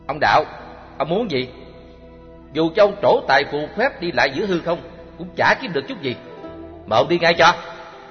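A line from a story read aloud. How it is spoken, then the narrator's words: Harsh, stern. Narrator (Vietnamese): Chí Kiệt ... gằn giọng nói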